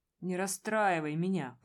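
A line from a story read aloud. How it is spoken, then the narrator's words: Groaning. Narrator (Russian): простонал Громов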